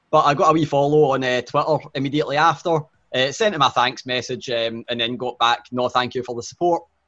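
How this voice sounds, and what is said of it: Strong regional accent. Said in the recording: “my accent being too strong”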